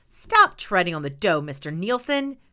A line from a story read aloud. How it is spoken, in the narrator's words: snapped